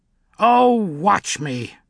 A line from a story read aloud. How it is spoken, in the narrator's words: snarled the witch